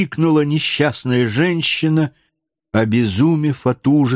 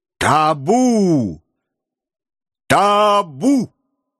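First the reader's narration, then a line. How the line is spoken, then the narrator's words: Thunderous shout over crowd. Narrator (Russian): покрывая шум толпы, он громовым голосом крикнул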